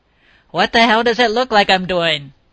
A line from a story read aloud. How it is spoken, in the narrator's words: he bellowed